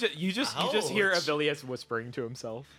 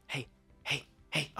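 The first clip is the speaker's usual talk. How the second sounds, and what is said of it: Whispering character voice. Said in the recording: “Barry starts whispering to you.”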